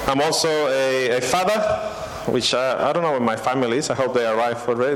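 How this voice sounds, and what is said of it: Slight Peruvian Spanish accent. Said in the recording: “I have a little accent. ... I'm from Peru, okay? So my original language is Spanish”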